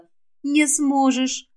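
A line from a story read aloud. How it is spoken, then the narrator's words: Gentle, smiling. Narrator (Russian): ласково улыбнулась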